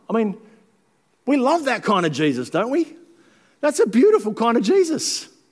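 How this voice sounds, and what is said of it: Voice suddenly rises in pitch. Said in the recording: “my voice went up an octave then”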